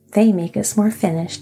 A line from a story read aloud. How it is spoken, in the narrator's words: said Cap'n Bill with a chuckle